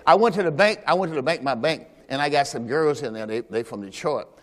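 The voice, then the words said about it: Noticeable Southern US accent. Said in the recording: “your accent is loud... It's noticeable... you from the South, aren't you?”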